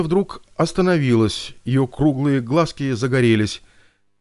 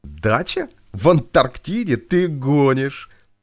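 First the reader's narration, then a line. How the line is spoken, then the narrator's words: Girl laughing. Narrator (Russian): засмеялась девчонка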